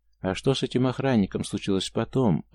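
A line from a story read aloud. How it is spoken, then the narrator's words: Timid question. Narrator (Russian): робко поинтересовался Иван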